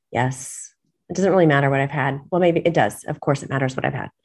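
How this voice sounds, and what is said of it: Sick, flu-affected voice. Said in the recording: “I sound a little different today because I've been under the weather. I've had the flu”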